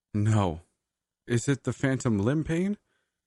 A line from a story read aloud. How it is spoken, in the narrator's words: I sobbed, my despairing yes fragmented